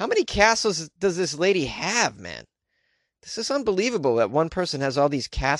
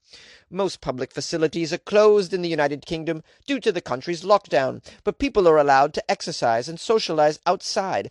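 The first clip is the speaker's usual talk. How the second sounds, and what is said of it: Put-on British accent. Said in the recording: “how's this UK accent. Is this is this good at all? I don't know.”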